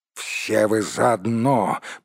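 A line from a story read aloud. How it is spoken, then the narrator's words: Growled angrily. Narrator (Russian): прорычал Торин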